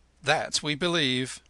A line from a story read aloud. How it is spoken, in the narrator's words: snorted the cultivator's wife malignantly